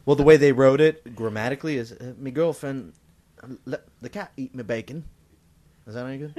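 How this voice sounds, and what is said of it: Put-on British accent. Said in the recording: “Do it in a British accent. ... It wasn't bad.”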